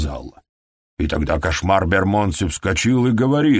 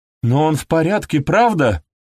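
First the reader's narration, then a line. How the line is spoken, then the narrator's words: Exclamation. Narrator (Russian): воскликнула Пегги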